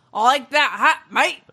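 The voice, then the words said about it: Put-on Australian accent. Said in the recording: “Let's do some Australian razor blades.”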